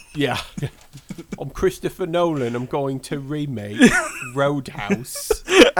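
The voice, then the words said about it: Put-on British accent. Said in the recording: “Christopher Nolan's British, right? ... I like how you gave him a specific accent, too.”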